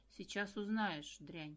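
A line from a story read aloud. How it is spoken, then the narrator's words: Low muffled voice. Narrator (Russian): глухим голосом произнес Влас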